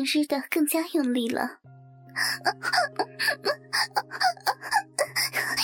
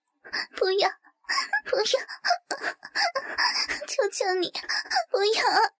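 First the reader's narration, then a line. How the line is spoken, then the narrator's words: Crying, pleading. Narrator (Chinese): 我哭着求他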